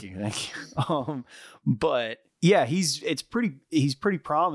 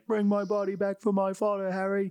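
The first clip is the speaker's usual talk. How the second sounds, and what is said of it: Impersonation of a film character. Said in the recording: “Flawless impersonation.”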